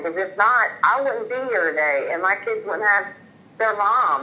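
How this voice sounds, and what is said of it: Speaks with a noticeable regional accent. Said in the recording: “that accent ... is wonderful ... that was a great accent”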